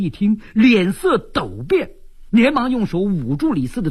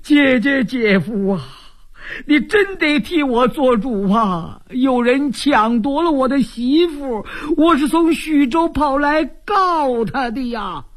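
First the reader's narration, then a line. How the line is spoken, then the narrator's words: Wailing. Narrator (Chinese): 李四禁不住哇哇大哭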